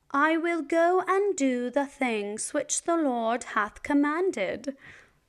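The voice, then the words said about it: Put-on British accent. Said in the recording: “I think I will try a British accent.”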